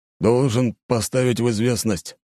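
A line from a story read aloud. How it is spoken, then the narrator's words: Gloomy continuation. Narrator (Russian): мрачно продолжил капитан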